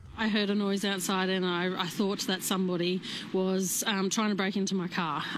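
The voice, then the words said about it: Funny-sounding Australian accent. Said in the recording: “Part of it's the accent. It's just funny when you actually hear her talk about it.”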